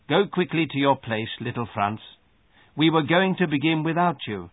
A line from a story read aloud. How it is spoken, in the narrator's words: he looked at me kindly and said, without scolding